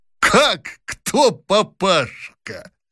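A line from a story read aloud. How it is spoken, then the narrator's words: Snorting with laughter. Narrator (Russian): фыркнул, затрясясь от смеха Лухин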